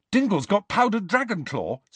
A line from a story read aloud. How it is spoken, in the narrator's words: said Ron eagerly